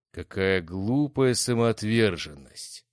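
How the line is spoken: Booming voice from darkness. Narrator (Russian): прогудело нечто из темноты катакомб

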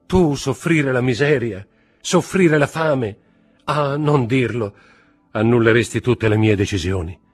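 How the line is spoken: Shouted. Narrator (Italian): gridò Mercedes

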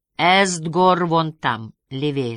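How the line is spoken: Plain. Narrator (Russian): сказал Юн

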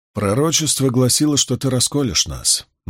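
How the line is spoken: Grim remark. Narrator (Russian): мрачно заметил Ган

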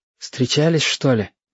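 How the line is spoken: Whispered question. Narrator (Russian): шепотом спросил ежики

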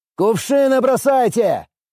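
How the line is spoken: Shouted command. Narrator (Russian): выкрикнул я команду

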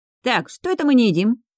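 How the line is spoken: Cheerful interjection. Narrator (Russian): бодрым голосом вмешивается Лаки

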